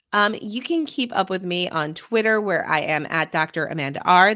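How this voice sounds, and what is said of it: Sick-sounding voice. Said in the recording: “being very sick, as you might have been able to hear in my voice”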